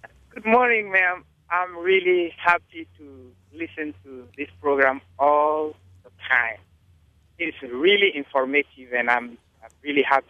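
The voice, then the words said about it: Non-native English accent. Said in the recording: “my accent. You might know that I'm from somewhere else, and I have English for a second language”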